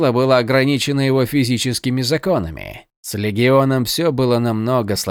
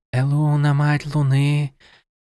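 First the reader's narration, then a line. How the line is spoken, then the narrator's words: Surprised involuntary whisper. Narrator (Russian): зашептала она неожиданно для себя самой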